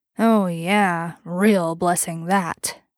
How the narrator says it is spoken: Bobby grunted

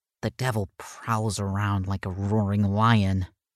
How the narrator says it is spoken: Ellison took a shuddering breath and mumbled

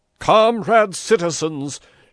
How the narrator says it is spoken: shouted Pepone

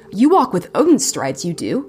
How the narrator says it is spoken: Johannes exclaimed

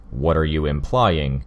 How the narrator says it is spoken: Armsmaster growled

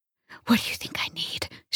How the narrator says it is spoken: whispered

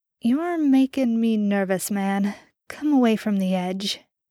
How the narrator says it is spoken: Milo drawled

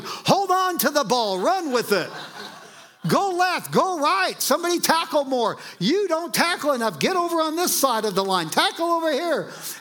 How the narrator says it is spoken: The parent is yelling

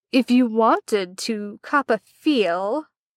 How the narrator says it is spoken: Arthur drawled lazily

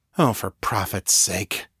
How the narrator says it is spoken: Danni muttered

